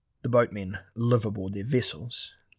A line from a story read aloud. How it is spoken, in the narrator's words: Temeris said